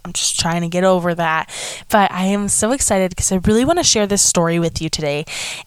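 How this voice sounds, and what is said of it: Slightly congested, different-sounding voice. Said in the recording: “I'm sorry if I sound a little bit different. I have a little bit of a cold”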